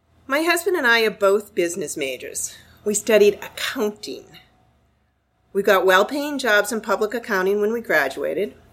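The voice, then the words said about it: Boston accent. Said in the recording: “my accent is from Boston. I haven't lived there in about 40 years. I can't shake it.”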